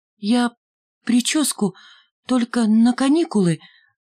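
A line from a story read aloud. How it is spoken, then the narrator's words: Stammering explanation. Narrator (Russian): заикаясь, объяснила Ленка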